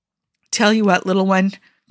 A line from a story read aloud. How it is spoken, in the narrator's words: Clint replied